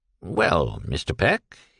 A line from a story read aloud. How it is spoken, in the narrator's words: he queried gently